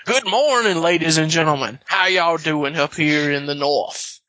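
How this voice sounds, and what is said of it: Exaggerated Southern cartoon rooster voice. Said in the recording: “go full out, like, Foghorn Leghorn accent”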